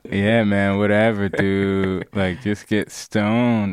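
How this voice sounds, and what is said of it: Poor impression of a low-energy voice. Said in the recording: “That's a terrible impression of me, man. I have more energy”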